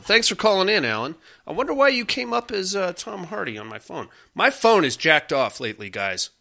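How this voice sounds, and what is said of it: Slightly nasal voice. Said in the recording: “I'm not feeling very well either ... my allergies ... I sound a little nasally.”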